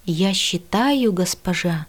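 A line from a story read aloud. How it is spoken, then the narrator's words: Hoarse. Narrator (Russian): хрипло произнес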